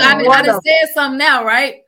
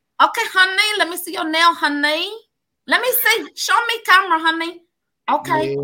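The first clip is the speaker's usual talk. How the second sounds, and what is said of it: Put-on nail lady accent. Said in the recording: “people say it's kind of racial if you do like the nail lady accent, but I be having my parents rolling on the floor doing nail lady accent ... Oh, you gotta do one for us”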